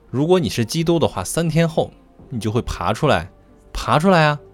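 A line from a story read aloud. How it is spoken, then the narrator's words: Cruel jeering shouts. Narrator (Chinese): 露出残忍的笑容，叫嚣着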